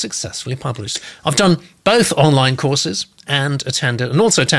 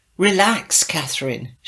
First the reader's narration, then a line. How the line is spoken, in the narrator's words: hisses